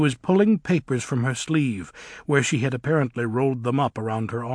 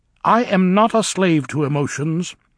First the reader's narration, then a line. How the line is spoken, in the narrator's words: Elphaba said sternly